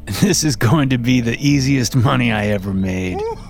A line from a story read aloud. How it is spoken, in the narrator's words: Bill said with a laugh